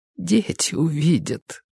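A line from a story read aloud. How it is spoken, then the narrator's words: Whispered. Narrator (Russian): прошептала она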